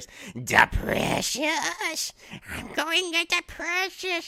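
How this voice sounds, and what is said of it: Poor imitation of a creature voice. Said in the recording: “I'll do my Smeagol voice ... That's more like an antelope from ... That was not good”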